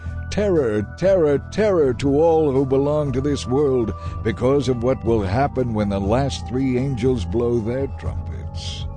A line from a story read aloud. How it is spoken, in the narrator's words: I heard a single eagle crying loudly as it flew through the air